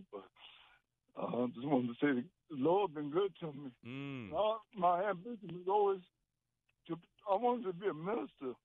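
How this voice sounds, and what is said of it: Emotional, choked-up voice. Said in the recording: “I'm getting a little emotional,”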